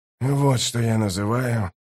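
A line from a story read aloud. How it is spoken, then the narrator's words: Muttered. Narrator (Russian): пробормотал Ток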